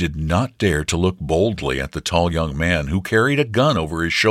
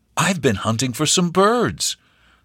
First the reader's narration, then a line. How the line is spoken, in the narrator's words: the stranger said kindly